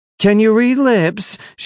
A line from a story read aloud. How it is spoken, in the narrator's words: she yelled